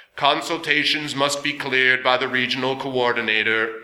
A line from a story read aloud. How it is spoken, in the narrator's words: the guardian boomed almost placidly